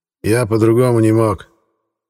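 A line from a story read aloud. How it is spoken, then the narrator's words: Gloomy reply. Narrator (Russian): мрачно ответил Силк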